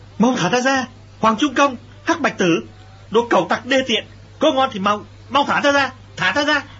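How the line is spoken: Loud furious shouting. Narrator (Vietnamese): Lệnh Hồ Xuân lớn tiếng la lên

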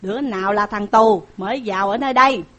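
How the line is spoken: Shouted question. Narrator (Vietnamese): Tiết Cáp quát hỏi rằng

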